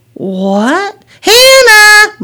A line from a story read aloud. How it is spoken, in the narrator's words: Mom called out